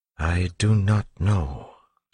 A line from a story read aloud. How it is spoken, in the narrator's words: Sazed said slowly